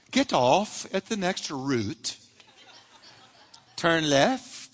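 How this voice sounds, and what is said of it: Imitated British woman's accent. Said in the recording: “a woman's voice who is British ... it's the British accent. I just like the British accent.”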